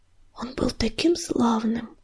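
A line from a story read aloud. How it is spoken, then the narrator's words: Tearful whisper. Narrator (Russian): глотая слезы, прошептал Огнезвезд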